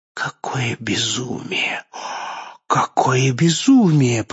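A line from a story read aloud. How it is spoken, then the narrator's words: Terrified whisper. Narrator (Russian): прошептала, и ужас усилился в ее глазах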